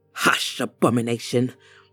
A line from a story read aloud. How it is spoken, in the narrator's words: said through clenched teeth